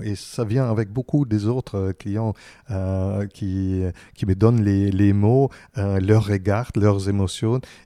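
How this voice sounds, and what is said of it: German accent speaking French. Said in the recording (French): “je garde toujours mon accent ... je prends encore des cours allemands pour garder mon accent”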